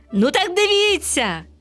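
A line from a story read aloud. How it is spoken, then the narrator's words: Exclaiming. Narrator (Ukrainian): вигукнув сонячний зайчик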